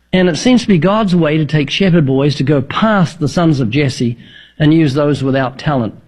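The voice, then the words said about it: New Zealand accent. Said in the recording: “the accent. I was thinking maybe Northern Alabama, but what? New Zealand.”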